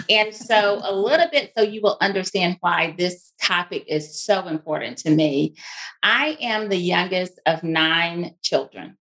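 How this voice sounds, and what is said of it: Mississippi twang accent. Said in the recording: “you probably hear that twang. That is a Mississippi twang. ... I still have the twang.”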